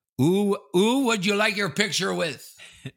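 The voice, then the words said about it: French accent. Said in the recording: “he called him in this French accent”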